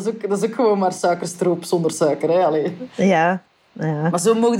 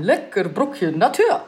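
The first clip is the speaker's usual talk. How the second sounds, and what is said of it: Put-on Swiss German accent. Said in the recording (Dutch): “met een Duitse stem ... Zwitserse, Zwitsers accent.”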